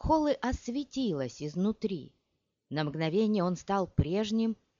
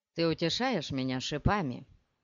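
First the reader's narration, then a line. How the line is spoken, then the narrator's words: Grumbling. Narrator (Russian): проворчал Пол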